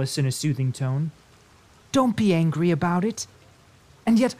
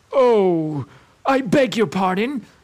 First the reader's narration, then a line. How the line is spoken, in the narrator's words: cried Alice again